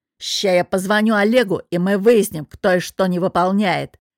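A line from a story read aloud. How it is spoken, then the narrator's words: Growled. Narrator (Russian): прорычал Иван Петрович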